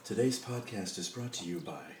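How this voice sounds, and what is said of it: Imitates a public radio announcer voice. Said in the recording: “Is that your uh, NPR voice?”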